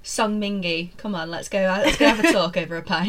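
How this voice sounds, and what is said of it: Deep-voiced British-style imitation. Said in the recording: “if Song Mingi was from the UK ... with a deep voice”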